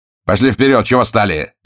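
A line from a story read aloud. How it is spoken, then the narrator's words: Bark. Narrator (Russian): рявкнул он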